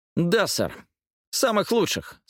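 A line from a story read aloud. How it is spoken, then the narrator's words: Sharp. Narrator (Russian): сказал он резко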